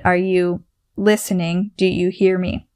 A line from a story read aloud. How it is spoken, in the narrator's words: with the stutter